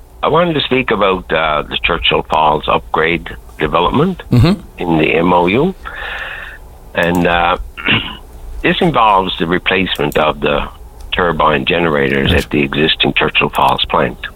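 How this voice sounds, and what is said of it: Cracked, slightly hoarse voice. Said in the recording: “My voice is a little bit cracked.”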